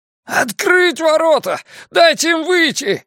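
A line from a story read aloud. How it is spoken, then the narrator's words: Loud echoing yell. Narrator (Russian): завопил стирсман воронов так, что по площади пошло эхо, а птицы на миг замолчали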